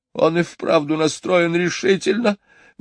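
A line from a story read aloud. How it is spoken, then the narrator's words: Exclaiming. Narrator (Russian): воскликнула мисс Ларк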